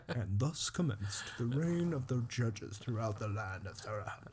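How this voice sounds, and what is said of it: Imitates another person's voice. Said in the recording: “I imagine it read by Morgan Freeman in my head ... It's a terrible impression.”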